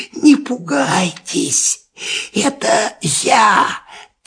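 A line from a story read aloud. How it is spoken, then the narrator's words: Nasal hissing whisper. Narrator (Russian): В гнусавом шепоте, похожем на сковородное шипение, артистке нетрудно было узнать голос антрепренера Индюкова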